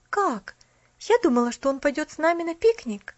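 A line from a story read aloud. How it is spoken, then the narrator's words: Exclaiming. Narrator (Russian): воскликнула она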